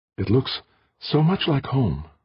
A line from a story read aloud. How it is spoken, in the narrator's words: Elise breathed